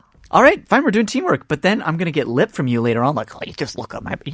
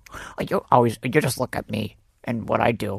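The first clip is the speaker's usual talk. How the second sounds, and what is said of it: Yoda-like imitation of another person. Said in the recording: “This is my Panita impression. ... I sound like Yoda. ... You do sound like Yoda.”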